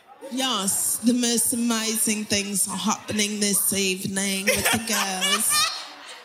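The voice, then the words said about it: Put-on showy accent. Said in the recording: “This accent.”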